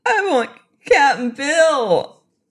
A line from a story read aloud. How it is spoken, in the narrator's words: wailed the girl